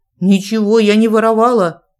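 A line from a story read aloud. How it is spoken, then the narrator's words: Irritated. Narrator (Russian): раздраженно сообщила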